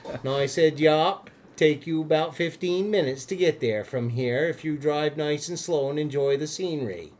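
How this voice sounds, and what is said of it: Vermont accent. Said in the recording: “that's a little bit of Vermont accent from a native Vermonter”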